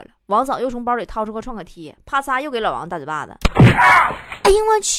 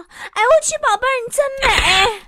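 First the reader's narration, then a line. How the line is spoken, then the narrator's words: Excited shouting. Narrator (Chinese): 一边拍一边大叫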